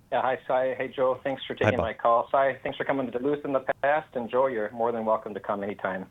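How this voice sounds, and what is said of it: Strong Minnesota accent. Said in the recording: “your Duluth accent, because that is the strongest Minnesota accent I've heard”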